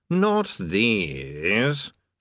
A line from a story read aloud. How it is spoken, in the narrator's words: sneered Vasnago